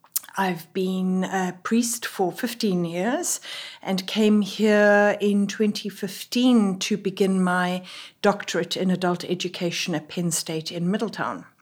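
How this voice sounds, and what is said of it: South African accent. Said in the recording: “as you can tell from my voice, am not from here. I am a South African”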